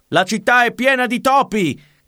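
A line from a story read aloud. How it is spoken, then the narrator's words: Furious crowd shouting. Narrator (Italian): gridavano infuriati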